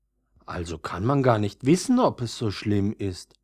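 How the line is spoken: Older violet's quiet remark. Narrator (German): bemerkte das ältere Veilchen leise

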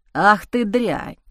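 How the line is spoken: Hoarse rasp. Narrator (Russian): прохрипел он

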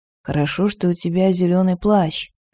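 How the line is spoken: Whispered reply. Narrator (Russian): шепнул он в ответ

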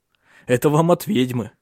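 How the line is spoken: Laughing. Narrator (Russian): засмеялся Тенгель

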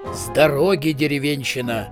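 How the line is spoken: Snorting wizard. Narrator (Russian): хмыкнул волшебник

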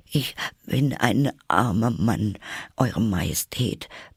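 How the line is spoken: Hatter, trembling voice. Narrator (German): begann der Hutmacher mit zitternder Stimme

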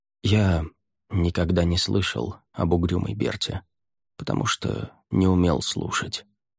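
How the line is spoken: Quiet. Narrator (Russian): тихо сказал Мирай

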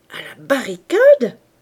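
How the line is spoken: Porter exclaiming. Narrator (French): s'écria le portier

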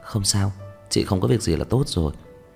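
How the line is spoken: Soft laugh. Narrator (Vietnamese): Vân Sở cười khẽ nói

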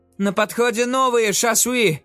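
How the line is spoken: Shouted, janissary. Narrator (Russian): выкрикнул янычар

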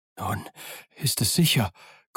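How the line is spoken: Panting. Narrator (German): keuchte

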